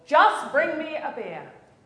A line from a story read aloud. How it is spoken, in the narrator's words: The tourist is now shouting